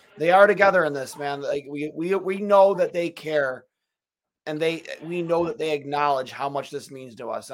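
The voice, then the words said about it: Strained, hoarse, fading voice. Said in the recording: “I'm losing my voice.”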